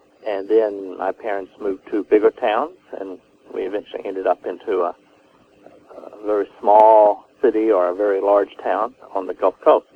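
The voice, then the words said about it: Texas accent. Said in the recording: “We know you have a Texas accent”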